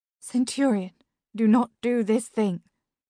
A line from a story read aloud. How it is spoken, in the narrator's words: Iris said, her voice now trembling